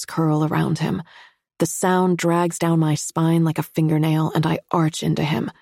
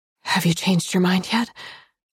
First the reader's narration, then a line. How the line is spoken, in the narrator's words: ask between breaths